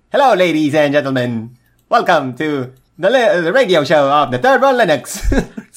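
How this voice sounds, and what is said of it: Old-fashioned transatlantic radio accent. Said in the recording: “With that transatlantic accent.”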